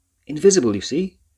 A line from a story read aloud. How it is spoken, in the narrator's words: shouted the professor